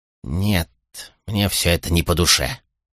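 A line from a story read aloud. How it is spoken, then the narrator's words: Thoughtful mumble. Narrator (Russian): пробормотал после недолгого размышления Плафт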